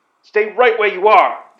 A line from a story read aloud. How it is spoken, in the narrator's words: the astronaut shouted